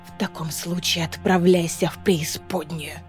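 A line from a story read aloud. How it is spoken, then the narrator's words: Whisper in ear. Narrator (Russian): шепнула Маэве на ухо Айлина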